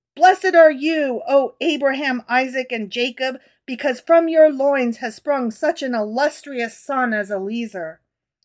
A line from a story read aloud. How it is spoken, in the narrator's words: Rabbi Yohanan, he exclaimed